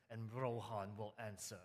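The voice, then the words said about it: Epic voice, put-on accent. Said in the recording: “in a very epic kind of voice ... a terrible accent”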